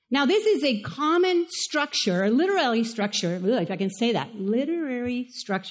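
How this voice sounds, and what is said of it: Spanish accent. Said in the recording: “It's my Spanish accent.”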